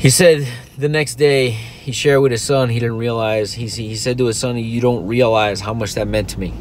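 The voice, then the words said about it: Choked-up, emotional voice. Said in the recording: “if you don't hear it in my voice, I'm, I'm, I'm choking up a little bit.”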